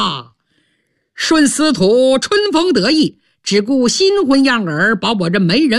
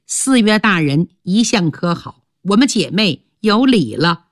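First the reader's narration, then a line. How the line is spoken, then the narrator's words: Smiling. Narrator (Chinese): 面带笑容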